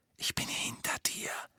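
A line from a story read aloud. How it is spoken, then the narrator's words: Whispering in ear. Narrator (German): flüsterte er Hermine ins Ohr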